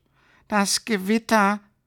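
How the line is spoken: Ball lightning sobbing. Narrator (German): schluchzte der Kugelblitz

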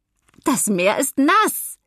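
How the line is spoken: Grandmother laughing, calling back. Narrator (German): ruft Oma lachend zurück

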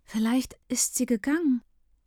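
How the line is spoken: Anxious, hopeful. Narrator (German): hofft Marco ängstlich

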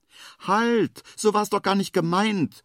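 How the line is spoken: Calling after. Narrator (German): ruft der Igel ihm hinterher

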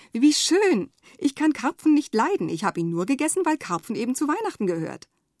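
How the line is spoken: Grandmother exclaiming. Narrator (German): Oma ruft

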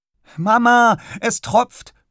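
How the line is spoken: Calling out. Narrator (German): ruft er

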